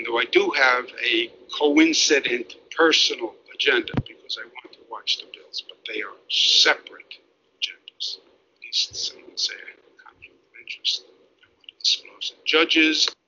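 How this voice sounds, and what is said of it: Imitates another person's voice. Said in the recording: “your Andrew Cuomo impression is just off the hook. Like, it gets better and better every time ... I just sort of try and sound like a younger Mario Cuomo”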